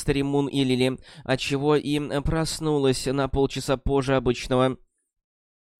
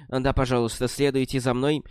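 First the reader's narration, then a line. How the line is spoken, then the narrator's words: Plain. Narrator (Russian): ответила Джилли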